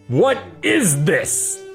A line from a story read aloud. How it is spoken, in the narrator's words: Clint bellowed